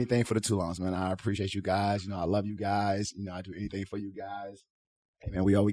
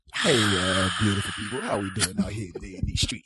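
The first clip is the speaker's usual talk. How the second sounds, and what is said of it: Sexy, seductive voice. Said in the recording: “With some sexy voice.”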